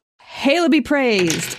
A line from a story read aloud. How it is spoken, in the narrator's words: I shout